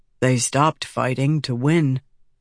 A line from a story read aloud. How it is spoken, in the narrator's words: Red softly added